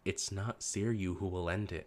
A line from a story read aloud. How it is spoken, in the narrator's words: Nagi said, her voice soft